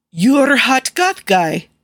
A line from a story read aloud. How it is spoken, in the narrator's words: Nikki blurts